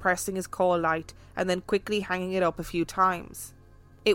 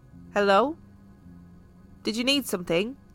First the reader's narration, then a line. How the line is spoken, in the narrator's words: I asked